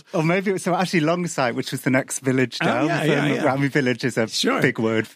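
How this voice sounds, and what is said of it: Odd Mancunian accent. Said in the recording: “You have a very odd Mancunian accent, despite being from Cardiff.”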